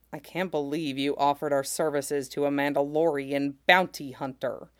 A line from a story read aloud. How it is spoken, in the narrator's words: Seer grumbled to him